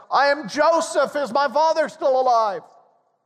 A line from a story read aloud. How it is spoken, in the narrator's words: they're stunned and they're terrified as the wailing man cries out